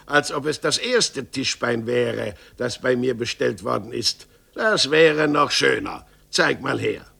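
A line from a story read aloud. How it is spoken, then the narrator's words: Annoyed exclamation. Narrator (German): rief Meister Gottlieb ärgerlich aus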